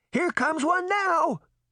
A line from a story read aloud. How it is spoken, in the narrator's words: Mallowbarb shouted